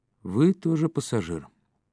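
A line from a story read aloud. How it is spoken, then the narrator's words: Grumbling. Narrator (Russian): проворчал Быков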